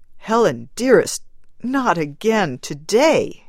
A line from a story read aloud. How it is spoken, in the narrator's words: he begged